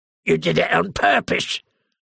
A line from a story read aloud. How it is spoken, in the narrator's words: the woman screeched